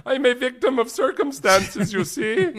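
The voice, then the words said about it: German accent, Hitler impression. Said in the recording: “It's a great German accent.”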